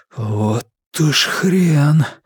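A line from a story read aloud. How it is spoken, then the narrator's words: Hoarse wheeze. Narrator (Russian): просипел я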